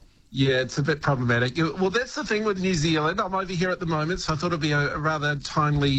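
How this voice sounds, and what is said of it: Usual voice. Nothing is said of it.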